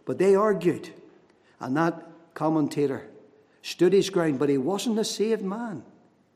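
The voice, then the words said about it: Liverpool accent. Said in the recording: “the whole city of Liverpool would have heard me in my lovely accent”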